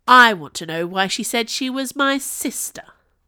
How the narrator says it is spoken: Kelpie said angrily

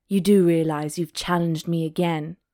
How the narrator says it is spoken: he purred

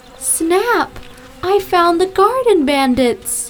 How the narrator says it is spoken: cried

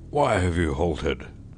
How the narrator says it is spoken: roared the commander of a division at Chickamauga

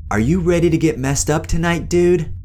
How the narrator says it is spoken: He screamed

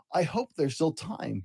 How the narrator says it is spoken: he said

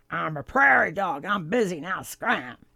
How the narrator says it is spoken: the popsicle with the head ... growled

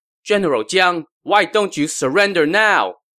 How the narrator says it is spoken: Zhuge Liang called out

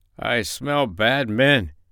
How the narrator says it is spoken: he growled

